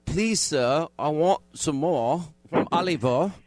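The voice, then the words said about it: Poor put-on British accent. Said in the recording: “Your British accent needs work ... It's appalling. It's appalling”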